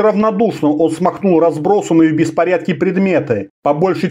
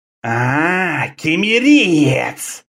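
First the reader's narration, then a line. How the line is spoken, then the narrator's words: Snake-man hissing. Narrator (Russian): прошипел человек-змея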